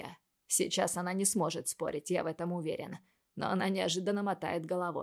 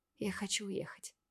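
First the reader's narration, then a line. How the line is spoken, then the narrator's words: Barely audible. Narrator (Russian): говорит чуть слышно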